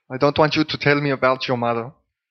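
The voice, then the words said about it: Bad put-on German accent. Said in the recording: “That's probably the shittiest German accent ever in the history of the world.”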